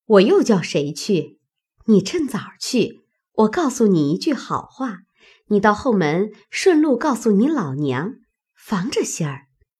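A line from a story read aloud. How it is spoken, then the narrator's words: Laughing. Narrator (Chinese): 翠墨笑道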